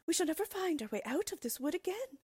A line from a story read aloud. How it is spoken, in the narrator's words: cried Gretel, beginning to weep